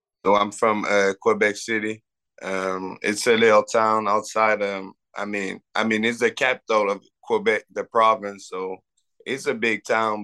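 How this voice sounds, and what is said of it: French Canadian accent. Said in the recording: “obviously we can hear a French accent.”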